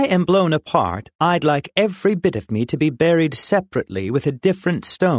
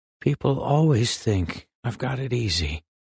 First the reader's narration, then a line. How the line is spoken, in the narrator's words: he said mournfully